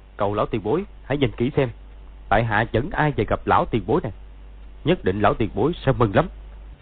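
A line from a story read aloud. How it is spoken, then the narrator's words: Smiling. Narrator (Vietnamese): Dương Quá mỉm cười nói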